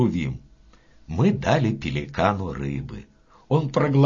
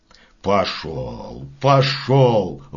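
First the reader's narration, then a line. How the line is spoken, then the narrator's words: Grumbling old man. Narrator (Russian): ворчал дед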